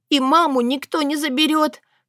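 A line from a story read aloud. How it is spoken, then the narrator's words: Tearful sob. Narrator (Russian): всхлипнул Рурик, которому очень-очень нужно было услышать это еще раз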